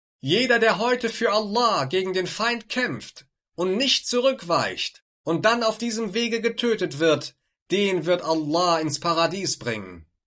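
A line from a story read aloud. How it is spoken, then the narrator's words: Loud calling out. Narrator (German): rief er mit lauter Stimme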